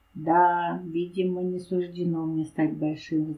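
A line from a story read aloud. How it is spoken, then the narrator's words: Sighing. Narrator (Russian): вздохнул Лалибай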